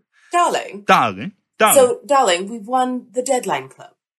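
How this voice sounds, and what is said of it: Put-on fancy British accent. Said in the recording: “in my best British accent, perhaps ... my fancy accent”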